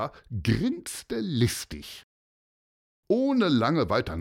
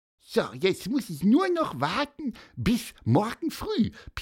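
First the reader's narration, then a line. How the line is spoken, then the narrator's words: Squeaky voice. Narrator (German): piepste er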